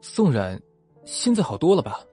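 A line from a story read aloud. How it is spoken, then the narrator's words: Hasty. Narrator (Chinese): 思怒赶紧转移话题说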